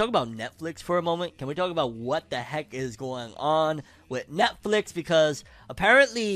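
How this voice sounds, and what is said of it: Usual voice. Nothing is said of it.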